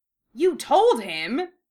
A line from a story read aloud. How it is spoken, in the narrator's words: Ron exclaimed